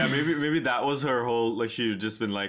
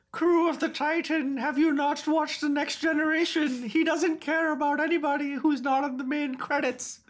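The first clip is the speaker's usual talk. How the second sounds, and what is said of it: Imitates another person's voice. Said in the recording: “good impression”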